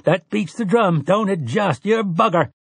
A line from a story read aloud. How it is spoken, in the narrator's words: Tian laughed and stomped his shore boots and cried